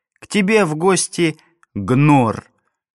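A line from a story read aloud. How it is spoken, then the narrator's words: Pleased laugh, goat-like bleat. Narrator (Russian): довольный собственной козлиной шуткой, Фарах рассмеялся, заблеял, как козел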